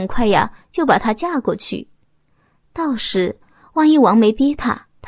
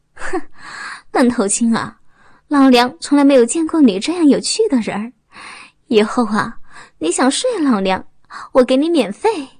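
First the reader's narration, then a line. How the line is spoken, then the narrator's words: Flirtatious, laughing. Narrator (Chinese): 王峰笑了笑得很开心，浪声地说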